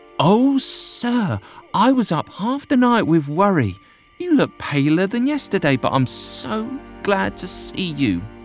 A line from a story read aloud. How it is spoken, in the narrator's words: She exclaimed